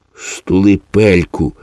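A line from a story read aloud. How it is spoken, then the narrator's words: Hissed. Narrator (Ukrainian): зашипів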